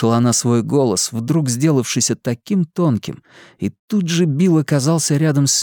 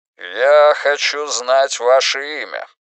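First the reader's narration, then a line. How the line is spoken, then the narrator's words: Commanding repetition. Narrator (Russian): властным голосом повторил Рейдмахер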